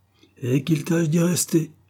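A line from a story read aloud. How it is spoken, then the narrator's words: Angry shout. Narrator (French): cria Peters, toujours plus irrité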